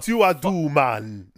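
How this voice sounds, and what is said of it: Put-on Jamaican accent. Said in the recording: “the guy who played the Jamaican”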